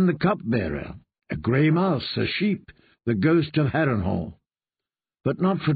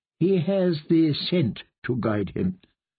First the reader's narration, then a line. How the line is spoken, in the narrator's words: the kindly man explained